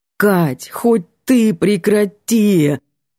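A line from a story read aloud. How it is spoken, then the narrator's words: Pleading. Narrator (Russian): Взмолился Антон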